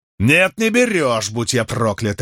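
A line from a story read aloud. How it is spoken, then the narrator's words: Barking. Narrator (Russian): рявкнул Фортис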